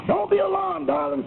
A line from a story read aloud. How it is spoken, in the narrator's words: cried the young American engineer